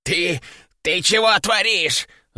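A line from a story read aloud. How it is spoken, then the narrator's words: Breathless wheeze. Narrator (Russian): задыхаясь, прохрипел он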